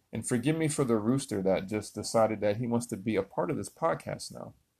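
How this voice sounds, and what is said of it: Loud, raised speaking voice. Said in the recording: “that's why I'm yelling at you. So if you need to turn your volume down, apologies.”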